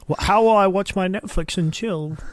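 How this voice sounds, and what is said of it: Posh old British man voice. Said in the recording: “put on this voice ... Being a posh old British man-ish, I think. Something along that line. I was trying to be an old man. I was trying to be like a 80-year-old who's sort of, not 80, maybe 70-year-old”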